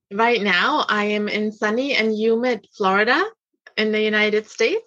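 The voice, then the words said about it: Slight German accent. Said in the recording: “I can hear a little bit of that German accent ... A little bit”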